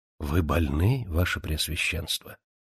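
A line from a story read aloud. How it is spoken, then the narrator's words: Priest's whisper. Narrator (Russian): священник прошептал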